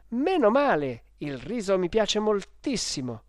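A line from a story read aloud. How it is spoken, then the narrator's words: Exclaimed. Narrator (Italian): esclamai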